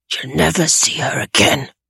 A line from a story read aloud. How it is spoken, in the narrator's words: the man whispered into Tobias's right ear